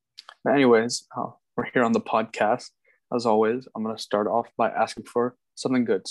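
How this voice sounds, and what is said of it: Slightly hoarse voice. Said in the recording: “My voice is a little bit hoarse today”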